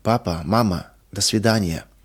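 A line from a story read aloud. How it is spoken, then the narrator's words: Sudden breathless exhale. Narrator (Russian): Вдруг выдохнула она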